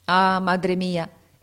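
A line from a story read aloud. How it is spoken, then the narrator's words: Exclaimed. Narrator (Italian): esclamò egli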